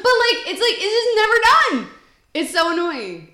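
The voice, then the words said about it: Loud, yelling voice. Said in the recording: “I'm yelling ... you are blowing out people's eardrums ... I will try not to yell”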